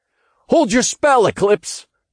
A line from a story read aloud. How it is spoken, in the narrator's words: called out